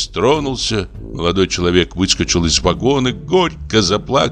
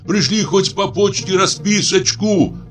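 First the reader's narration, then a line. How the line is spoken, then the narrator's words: Shouted. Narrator (Russian): крикнул он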